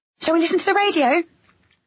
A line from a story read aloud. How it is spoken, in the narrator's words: I said, too brightly